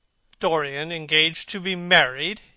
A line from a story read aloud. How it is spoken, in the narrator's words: he cried